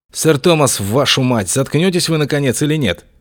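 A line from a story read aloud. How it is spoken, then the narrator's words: Sharp rebuke. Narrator (Russian): прикрикнул на него Августин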